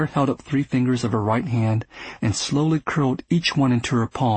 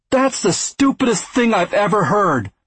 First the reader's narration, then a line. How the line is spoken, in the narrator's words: Carver shouted